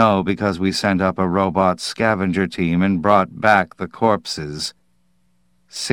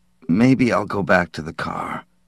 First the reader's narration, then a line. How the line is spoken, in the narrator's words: he muttered